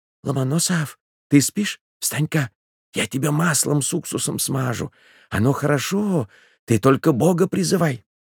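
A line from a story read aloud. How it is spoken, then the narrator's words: Whispering. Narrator (Russian): Робинзон зашептал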